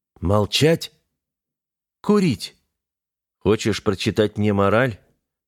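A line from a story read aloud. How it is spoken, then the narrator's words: Calm, unchallenging question. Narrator (Russian): Вопрос был задан спокойно, без вызова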